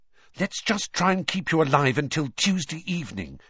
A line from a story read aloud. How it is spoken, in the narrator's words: she said desperately